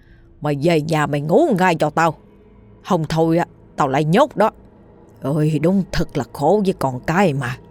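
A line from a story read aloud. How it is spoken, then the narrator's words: Angry shout. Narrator (Vietnamese): Người đàn ông cầm gậy kia quát lên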